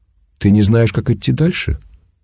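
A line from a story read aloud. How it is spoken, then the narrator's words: Calm question, bird. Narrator (Russian): спокойно поинтересовалась птица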